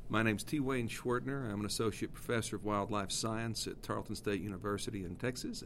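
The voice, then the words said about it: Texan American accent. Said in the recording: “you can probably tell by my accent I am not from South Africa ... You've got a Texan here”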